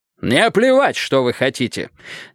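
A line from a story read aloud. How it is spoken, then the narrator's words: Barked. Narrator (Russian): рявкнул Джонсон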